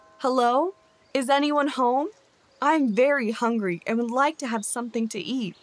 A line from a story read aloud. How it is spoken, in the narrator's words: He called out